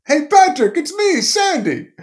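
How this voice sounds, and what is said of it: Made-up impression of Sandy Frank. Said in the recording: “I'm just making that accent up. I have no idea what he sounds like.”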